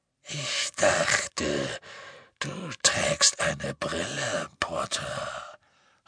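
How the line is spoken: Breathy whisper. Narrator (German): hauchte Greyback

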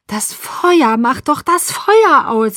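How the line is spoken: Shouting. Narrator (German): schrie

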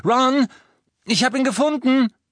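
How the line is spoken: Called over shoulder. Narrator (German): rief über die Schulter

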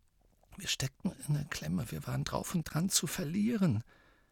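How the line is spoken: Quiet voice. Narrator (German): sagte Tonks mit leiser Stimme

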